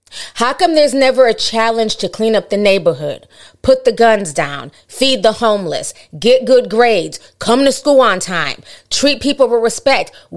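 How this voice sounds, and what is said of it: Frustrated scolding mom voice. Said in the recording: “now I'm talking to my mom voice, because that's how I was talking to him, because I was like so frustrated”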